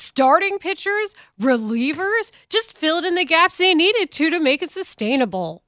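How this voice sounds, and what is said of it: Usual voice. Nothing is said of it.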